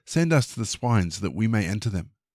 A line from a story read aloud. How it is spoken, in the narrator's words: All the demons pleaded with him, asking